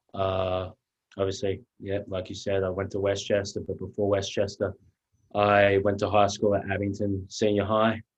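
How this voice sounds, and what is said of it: Slight Australian accent. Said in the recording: “I have a little accent because I'm from a little country town right outside of Melbourne, Australia”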